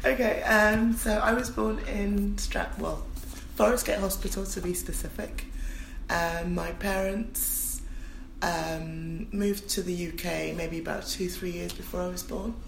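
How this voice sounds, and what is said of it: Hoarse, strained sore-throat voice. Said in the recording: “I've got a sore throat, so that's why my voice sounds like this.”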